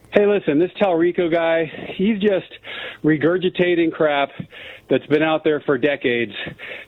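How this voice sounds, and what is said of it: Out of breath. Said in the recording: “I'm a little out of breath.”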